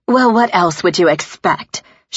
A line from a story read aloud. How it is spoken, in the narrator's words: She snapped